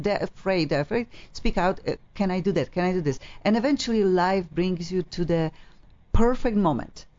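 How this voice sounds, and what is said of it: Strong colorful non-native accent. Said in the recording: “I have funky accent. I know it's colorful to listen to it”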